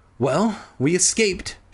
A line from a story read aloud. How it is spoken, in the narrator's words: Sheena sighed